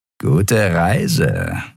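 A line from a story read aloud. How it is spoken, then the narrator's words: Malicious grinning grumble. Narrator (German): brummte ein Skria-Weißmantel boshaft grinsend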